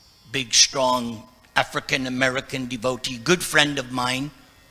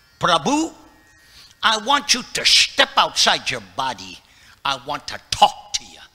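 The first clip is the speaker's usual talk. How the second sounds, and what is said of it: Imitated preacher's accent. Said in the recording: “he had a very unique way of preaching ... I'm trying to imitate his accent”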